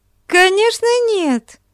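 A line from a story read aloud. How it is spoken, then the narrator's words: Exclaiming. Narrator (Russian): воскликнула Амалия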